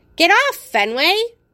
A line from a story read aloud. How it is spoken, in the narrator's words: Hattie snaps, her voice wavery and hesitant